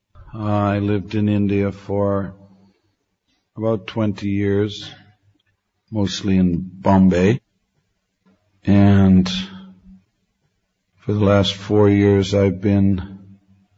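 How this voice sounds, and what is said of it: Hoarse, worn-out voice. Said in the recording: “I've been taking help from Fisherman's Friend. My voice is just, ... somehow Krishna took away my voice afterwards”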